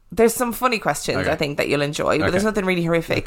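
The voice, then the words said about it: Hoarse sore-throat voice. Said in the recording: “I've got a really sore throat as well, so you'll have to forgive me if my voice is horrific.”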